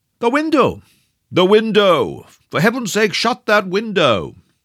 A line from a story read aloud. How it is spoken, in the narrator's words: roared the professor in an agony of apprehension